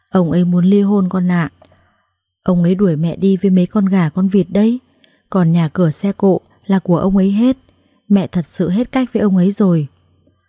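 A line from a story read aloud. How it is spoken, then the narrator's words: Sighing older woman. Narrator (Vietnamese): Mẹ chồng tôi thở dài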